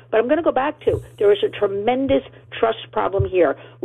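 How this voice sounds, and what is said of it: Strained voice, losing it. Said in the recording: “I talk about AI so much this week, I'm losing my voice”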